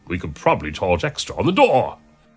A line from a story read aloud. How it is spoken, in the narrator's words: exclaimed the monk